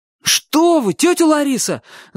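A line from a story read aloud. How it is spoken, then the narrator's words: Terrified shout. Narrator (Russian): закричал Чик, страшно испугавшись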